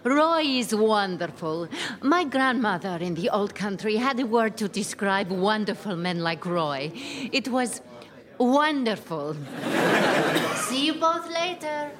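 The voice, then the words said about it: Heavy, hard-to-understand foreign accent. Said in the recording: “Can't understand a word she says with that accent of hers.”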